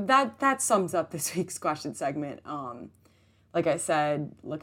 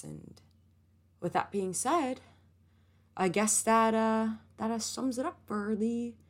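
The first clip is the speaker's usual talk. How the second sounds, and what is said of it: Slight put-on country accent. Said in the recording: “I just had a little country accent going on there ... That's not even, I don't know what it was.”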